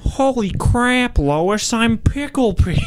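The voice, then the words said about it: Peter Griffin cartoon character voice. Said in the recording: “You get to say one thing as Peter Griffin ... that impression”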